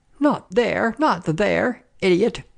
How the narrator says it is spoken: cried

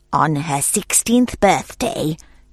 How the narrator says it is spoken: she hissed

